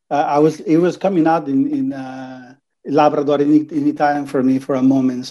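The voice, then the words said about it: Italian-accented English. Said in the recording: “I detected a lovely accent”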